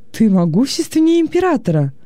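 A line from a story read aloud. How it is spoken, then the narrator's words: Delighted exclamation. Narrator (Russian): с восторгом воскликнул Вениций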